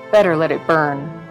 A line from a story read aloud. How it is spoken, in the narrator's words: said the soldier sadly, but in a way that let them know he believed it to be true